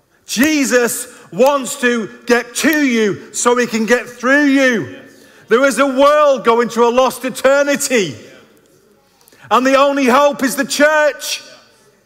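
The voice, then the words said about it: Raised, excited preaching voice. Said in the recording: “I know I'm raising my voice, but I'm really excited”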